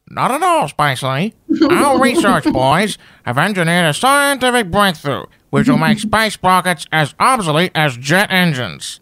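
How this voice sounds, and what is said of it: Imitates another person's voice. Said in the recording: “great impersonation”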